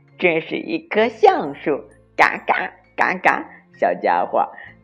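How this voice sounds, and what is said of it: Harsh grating crow voice. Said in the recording (Chinese): “用刺耳的声音说”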